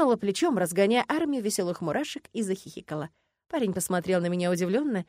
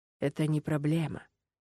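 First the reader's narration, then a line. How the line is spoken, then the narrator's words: Barely audible breath. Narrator (Russian): выдохнул Ленард еле слышно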